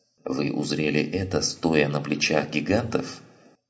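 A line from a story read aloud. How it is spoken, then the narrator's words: Grumbling mutter. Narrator (Russian): буркнул Эйзенхорн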